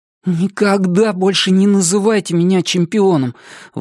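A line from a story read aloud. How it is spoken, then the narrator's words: Forced out, strained. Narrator (Russian): выдавил я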